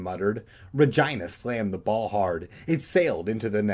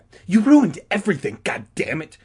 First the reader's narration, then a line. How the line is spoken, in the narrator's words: she accused Todd angrily